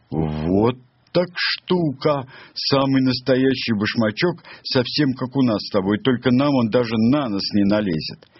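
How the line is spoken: Sudden loud laughter. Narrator (Russian): Матс вдруг громко рассмеялся

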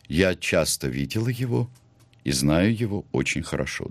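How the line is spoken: Calm, even voice. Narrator (Russian): она ответила спокойным, ровным голосом

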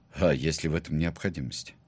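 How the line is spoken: Sighing, outwardly calm question. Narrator (Russian): глубоко вздохнул и внешне невозмутимо спросил

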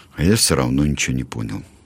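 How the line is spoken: Sad remark. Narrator (Russian): Мишка Маслюк грустно сообщил

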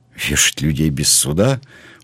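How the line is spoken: Indignant exclamation. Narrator (Russian): воскликнул Блад возмущенно

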